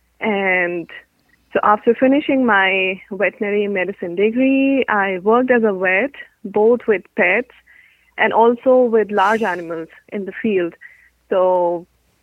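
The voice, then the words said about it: Indian-accented English. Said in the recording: “I'm thinking India based on your name and your pronunciation, but your accent, but maybe not India”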